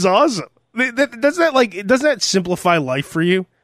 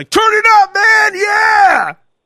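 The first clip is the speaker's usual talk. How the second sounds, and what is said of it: Shouting excitedly. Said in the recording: “he's screaming”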